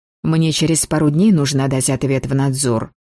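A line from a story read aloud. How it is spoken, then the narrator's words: Gloomy mutter. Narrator (Russian): хмуро буркнула я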